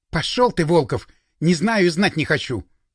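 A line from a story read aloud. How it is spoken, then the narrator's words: Snapped. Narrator (Russian): огрызнулась Ника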